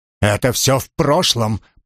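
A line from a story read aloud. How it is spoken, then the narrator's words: Growling. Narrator (Russian): прорычал он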